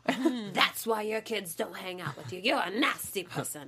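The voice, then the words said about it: Put-on Jersey accent, sounding Irish. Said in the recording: “sound British ... Is that Irish? Is that a leprechaun accent? ... that's my evil accent ... That one was a little leprechaun-ish ... my evil Jersey accent”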